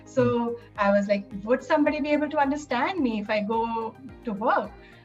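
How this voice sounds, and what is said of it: Non-American accent. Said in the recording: “my accent being different than American accent.”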